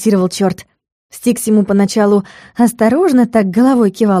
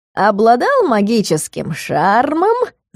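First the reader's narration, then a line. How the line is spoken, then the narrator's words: Devil's sing-song bawling. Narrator (Russian): нараспев горлопанил черт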